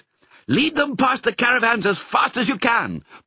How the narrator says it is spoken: Pongo shouted to Mrs

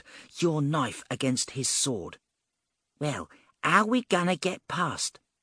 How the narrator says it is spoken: Lee hissed

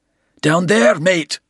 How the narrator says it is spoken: Bald roared

